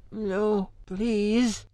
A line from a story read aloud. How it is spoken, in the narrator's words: lisped through split lips